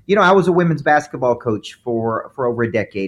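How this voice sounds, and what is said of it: Southern American accent with twang. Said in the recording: “a little less twang ... It's my southern accent. ... Southern accent.”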